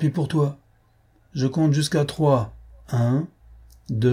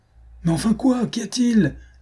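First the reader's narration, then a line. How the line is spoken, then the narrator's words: Shouted. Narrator (French): hurla Don Luis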